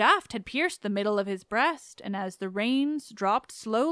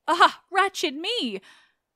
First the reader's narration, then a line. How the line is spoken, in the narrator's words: One of these, Ismenus, firstborn of his mother, cried out